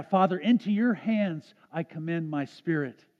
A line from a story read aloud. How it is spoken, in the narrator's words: On the cross, cried out